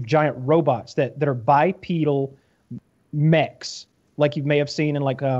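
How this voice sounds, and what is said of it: Usual voice. Nothing is said of it.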